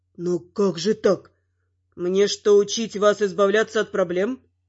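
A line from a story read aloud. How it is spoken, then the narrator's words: Son growling. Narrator (Russian): рыкнул сын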